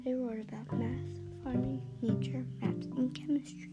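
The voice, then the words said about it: Speaking very quietly. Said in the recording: “I'm talking so quietly”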